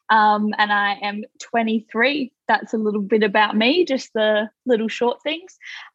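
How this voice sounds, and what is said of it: Australian accent. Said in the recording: “If you can't tell from my accent, I'm from Australia.”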